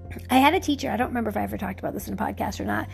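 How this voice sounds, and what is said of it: Hoarse, failing voice. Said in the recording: “losing my voice ... get all flummy and crazy right this minute”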